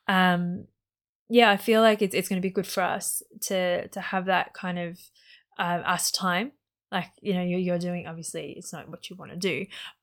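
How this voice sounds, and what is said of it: Hoarse, strained voice. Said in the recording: “I feel like I'm losing my voice.”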